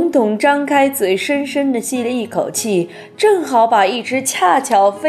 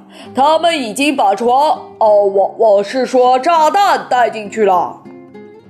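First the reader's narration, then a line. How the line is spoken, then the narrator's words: Exclaiming. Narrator (Chinese): 沙克沃斯叫道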